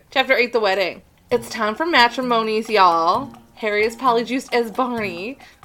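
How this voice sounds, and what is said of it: Subtle put-on southern accent. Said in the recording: “I don't know why I'm in this accent ... No, I just started doing some weird southern accent. ... It was very subtle.”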